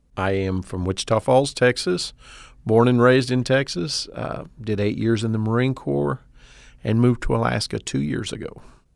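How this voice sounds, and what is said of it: Texan accent. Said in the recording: “accent doesn't lie... hails from the high plains of Texas”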